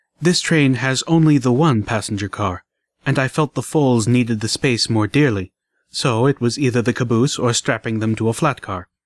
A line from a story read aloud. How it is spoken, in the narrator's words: Less softly